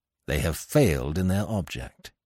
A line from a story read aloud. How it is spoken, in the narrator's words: added grimly